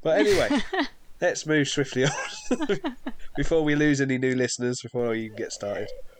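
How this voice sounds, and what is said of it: Congested, blocked-up nasal voice. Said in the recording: “I'm a bit blocked up with hay fever”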